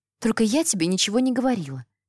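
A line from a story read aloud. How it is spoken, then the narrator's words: Hurried whisper. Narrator (Russian): торопливо шепнула Элизабет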